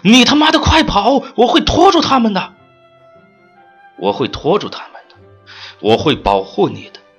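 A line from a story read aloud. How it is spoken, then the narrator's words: Shouting while being beaten. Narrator (Chinese): 同伴在如雨的拳脚中大喊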